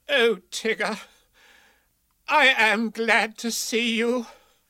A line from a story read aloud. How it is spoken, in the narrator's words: cried Rabbit